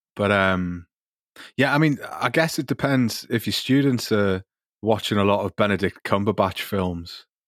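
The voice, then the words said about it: Geordie accent. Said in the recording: “has this wonderful Geordie accent, which is very, very special in the UK”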